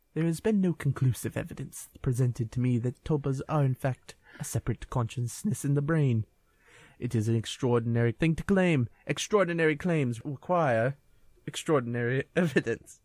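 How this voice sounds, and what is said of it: Imitation voice, sounds like British gentleman. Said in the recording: “my best Carl Sagan impression ... was Carl Sagan a 19th century British gentleman?”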